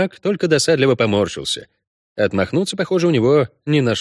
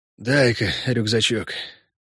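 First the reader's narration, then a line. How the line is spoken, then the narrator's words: Forced out, heavy breathing. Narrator (Russian): выдавил он и тяжело задышал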